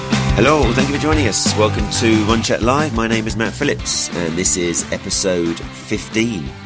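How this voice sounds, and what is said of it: Sick, flu-affected voice. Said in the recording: “As you can probably hear from my voice, the New Year's brought me a rather nasty strain of man flu”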